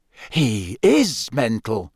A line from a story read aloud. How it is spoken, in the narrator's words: Fred said in an almost awed voice